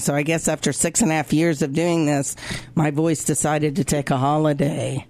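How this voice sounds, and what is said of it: Hoarse, deep, laryngitis-strained voice. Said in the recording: “Robin Laryngitis Gunn ... my voice is going ... I kind of sound like a dude”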